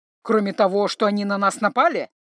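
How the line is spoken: Angry, curt. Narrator (Russian): зло бросил Грым

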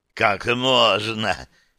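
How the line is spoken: Loud laughter. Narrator (Russian): Нику расхохотался

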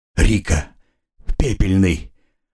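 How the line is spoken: Mutter. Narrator (Russian): пробормотал

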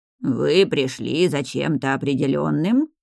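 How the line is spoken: Shopkeeper's quavering voice. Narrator (Russian): дребезжащим голосом спросил владелец лавки

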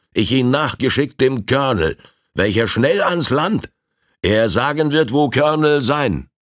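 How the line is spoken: Man calling out. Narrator (German): rief der Indianer

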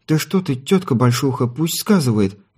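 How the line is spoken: Pleading. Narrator (Russian): взмолилась Смеяна

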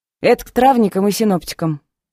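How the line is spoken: Joyless snort. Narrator (Russian): без особой радости хмыкнула

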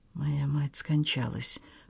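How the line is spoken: Whispered repeat. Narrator (Russian): повторил Генри шепотом

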